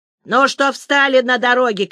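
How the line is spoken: Shouting woman. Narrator (Russian): кричала толстая тетка

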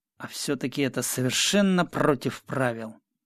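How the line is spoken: Muttering. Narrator (Russian): пробормотал

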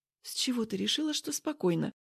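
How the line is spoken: Whispering. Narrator (Russian): говорю шепотом

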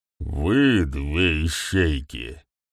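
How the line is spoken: Angry. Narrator (Russian): продолжил ГМ, злобно

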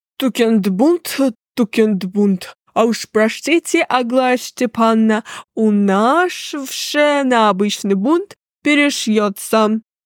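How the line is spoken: Lisping countess. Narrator (Russian): прошепелявила графиня Энгельгард

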